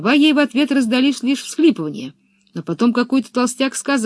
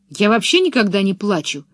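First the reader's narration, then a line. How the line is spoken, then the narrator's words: Snapped back. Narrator (Russian): огрызнулась Пеппи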